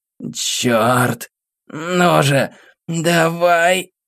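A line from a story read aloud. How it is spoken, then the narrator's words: Hoarse voice echoing in cave. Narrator (Russian): Ее хриплый голос эхом разносился под сводами каменной пещеры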